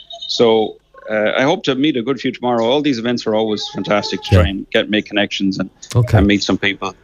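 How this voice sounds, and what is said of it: Polished Irish accent. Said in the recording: “you're starting to get the American accent ... a very polished, clean Irish accent ... A very, very polished Lecanvey accent.”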